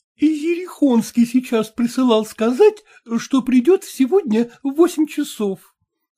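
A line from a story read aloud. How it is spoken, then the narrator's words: Timid report to daughter. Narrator (Russian): робко сообщила Манефа Мартыновна дочери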